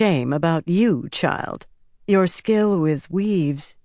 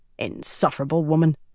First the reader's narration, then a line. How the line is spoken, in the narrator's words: she muttered